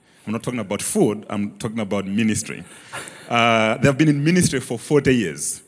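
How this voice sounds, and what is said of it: Foreign-accented English. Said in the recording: “Forgive my accent.”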